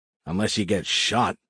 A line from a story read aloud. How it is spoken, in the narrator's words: I grumbled to myself